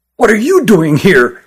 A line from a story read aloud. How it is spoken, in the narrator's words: asked Christopher angrily